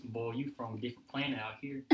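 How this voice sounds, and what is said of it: Put-on Southern country accent. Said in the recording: “I can talk country ... talk real country ... That's so bad”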